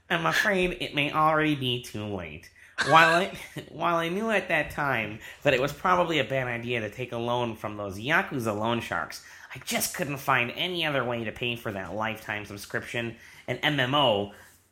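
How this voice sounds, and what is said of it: Impersonation of Steven. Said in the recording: “my best Steven impersonation”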